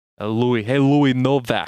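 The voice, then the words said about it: Put-on New Jersey accent. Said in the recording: “with this like New Jersey type of accent”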